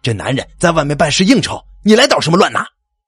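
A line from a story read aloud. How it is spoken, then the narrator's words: Theatrical loud shout. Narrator (Chinese): 老高作戏一般的大声叫道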